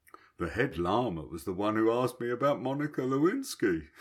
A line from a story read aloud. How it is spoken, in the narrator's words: he laughed